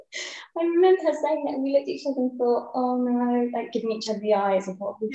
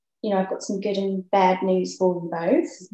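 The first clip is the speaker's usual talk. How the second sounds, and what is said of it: Poor imitation of Australian accent. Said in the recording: “that's my really bad Australian accent”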